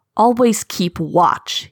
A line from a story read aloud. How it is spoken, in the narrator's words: he spat at his son